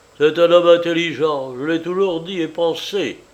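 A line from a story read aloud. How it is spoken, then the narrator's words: Grumbled. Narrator (French): grommela Paul Pietrovitch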